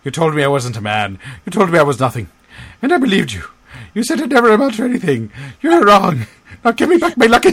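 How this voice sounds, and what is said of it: Put-on Irish accent. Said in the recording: “I apologize to any Irish listeners ... your, your accent ... that was quite offensive”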